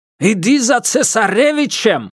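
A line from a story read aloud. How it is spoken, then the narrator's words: Shouted. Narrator (Russian): крикнул Герман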